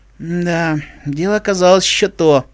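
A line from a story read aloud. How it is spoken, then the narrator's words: Sighing. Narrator (Russian): вздохнула Дэши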